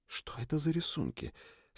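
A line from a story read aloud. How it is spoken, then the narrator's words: Whispered question. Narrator (Russian): спросила Триш, тоже шепотом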